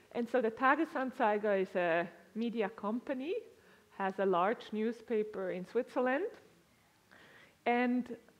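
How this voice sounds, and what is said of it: Swiss-influenced accent. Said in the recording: “As you can hear from my accent, and I shared previously, I spent significant time in Switzerland.”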